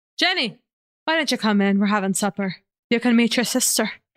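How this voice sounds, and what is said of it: Not very good put-on Irish accent. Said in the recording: “when you do that accent ... It's not even a good Irish accent.”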